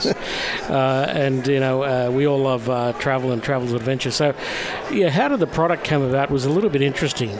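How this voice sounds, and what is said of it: Australian accent. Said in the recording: “apologies for the accent. Yes, we have come a long way from Australia”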